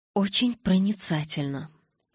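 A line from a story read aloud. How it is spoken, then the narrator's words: Whisper. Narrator (Russian): прошептал Эдвард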